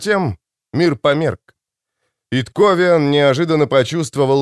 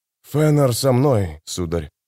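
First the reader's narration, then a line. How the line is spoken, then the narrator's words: Trembling voice. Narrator (Russian): дрожащим голосом ответил Карнадос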